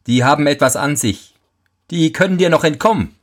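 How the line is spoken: Mocking. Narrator (German): sprach der Teufel höhnisch

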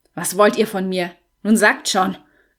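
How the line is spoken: Growling. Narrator (German): knurrte George

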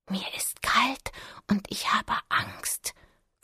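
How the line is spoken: Muffled whisper. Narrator (German): flüsterte Lena hinter dem Vorhang

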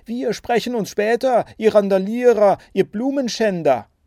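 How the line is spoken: Threatening shout. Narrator (German): drohend ... rief

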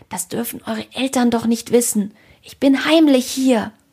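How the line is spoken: Hissing. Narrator (German): zischte Ede

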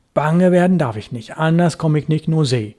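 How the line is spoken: Muttering to himself. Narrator (German): sagte er vor sich hin

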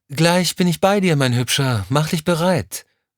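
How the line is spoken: Calling from another room. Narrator (German): rief es aus dem Badezimmer

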